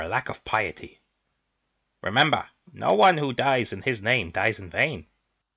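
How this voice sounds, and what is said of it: Yoda-like character voice. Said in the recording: “Your accent, man. ... It's suddenly Yoda. ... I couldn't treat seriously to that voice.”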